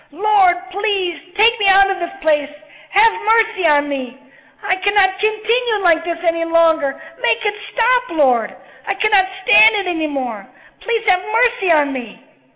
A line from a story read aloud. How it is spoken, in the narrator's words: She shouted